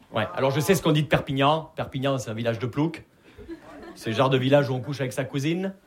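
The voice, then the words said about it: Southern French accent from Perpignan. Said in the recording (French): “vous l'entendez à mon accent, je viens pas de Paris. Je viens de Perpignan.”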